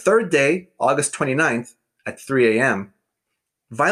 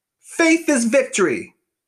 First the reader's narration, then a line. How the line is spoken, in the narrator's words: Over and over, Violet cried out